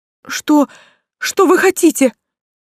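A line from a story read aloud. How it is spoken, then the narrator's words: Flustered babbling young man. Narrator (Russian): пролепетал прежде заносчивый юнец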